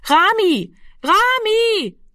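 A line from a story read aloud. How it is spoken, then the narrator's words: Repeated calling into darkness. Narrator (German): rief sie fortgesetzt in die Dunkelheit hinein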